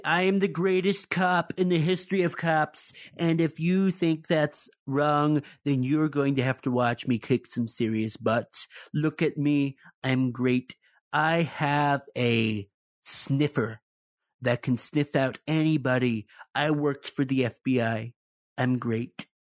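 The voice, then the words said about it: Imitates another person's voice. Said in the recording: “my Donald Trump impersonation”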